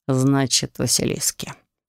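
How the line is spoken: Dragon's thoughtful drawl. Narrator (Russian): задумчиво протянул дракон

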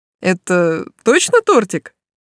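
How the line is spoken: Giggling handsome man. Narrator (Russian): хихикнул красавчик

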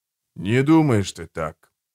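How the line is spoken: Soft, plaintive, trembling plea. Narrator (Russian): сказал мягко, жалобно, самым дрожащим голосом моля

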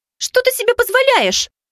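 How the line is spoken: Girl shouting. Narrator (Russian): выкрикнула девчонка

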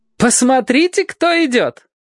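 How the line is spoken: Exclaiming. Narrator (Russian): воскликнула дочь Фрэнка Фрати

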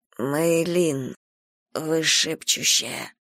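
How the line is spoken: Breathed out. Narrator (Russian): выдохнула я

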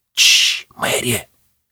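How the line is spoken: Whisper. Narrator (Russian): зашептал Гвоздик

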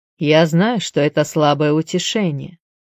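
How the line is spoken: Plain. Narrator (Russian): сказал он

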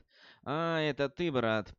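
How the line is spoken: Sighing. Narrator (Russian): вздохнул

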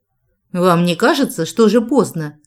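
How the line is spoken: Barking snap. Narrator (Russian): рявкнула я

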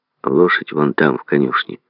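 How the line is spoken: Grumbled. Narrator (Russian): буркнул он

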